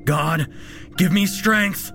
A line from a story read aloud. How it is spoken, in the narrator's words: He shouted aloud as the monster closed in on him